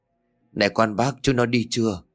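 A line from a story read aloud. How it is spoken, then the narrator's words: Trembling question. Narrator (Vietnamese): Quý run rẩy hỏi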